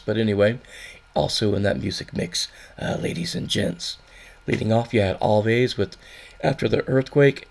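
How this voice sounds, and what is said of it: Deep traditional DJ voice. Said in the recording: “more sexy traditional DJ deep voice”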